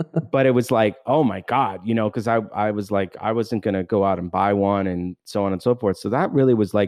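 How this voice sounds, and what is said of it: Usual voice. Nothing is said of it.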